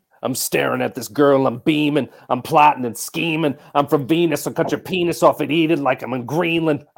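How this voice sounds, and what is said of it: Rapping, imitates another person's voice. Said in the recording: “You're doing an Eminem impression? ... I'm doing Eminem right now, dude. ... It was so good.”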